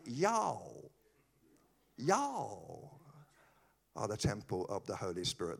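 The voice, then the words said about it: Poor attempt at Texan accent. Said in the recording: “When I go to Texas, they say ... That was a terrible accent.”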